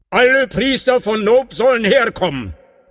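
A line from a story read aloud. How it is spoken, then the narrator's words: Calling out. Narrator (German): rief er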